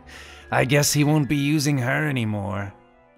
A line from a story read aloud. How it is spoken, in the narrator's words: Kome cackled